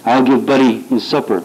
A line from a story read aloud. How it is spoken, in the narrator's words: my mother said